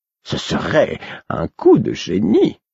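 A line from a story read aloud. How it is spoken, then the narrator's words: Admiring exclamation. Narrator (French): s'exclama-t-il, admiratif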